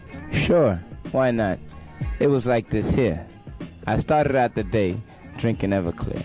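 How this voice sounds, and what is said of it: Jamaican accent. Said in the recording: “I like his voice. He's got this, because he's Jamaican. He's got kind of a cool accent.”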